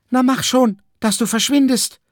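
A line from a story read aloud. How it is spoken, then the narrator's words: Woman calling out. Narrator (German): rief die Frau der Wolke zu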